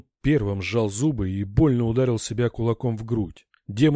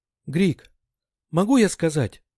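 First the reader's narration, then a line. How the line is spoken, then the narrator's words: Frightened telepathic thought. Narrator (Russian): испуганно заметалась в сознании брата мысль Линти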